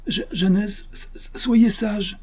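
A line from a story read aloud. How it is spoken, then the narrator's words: Pleading simpleton. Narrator (French): supplia l'innocent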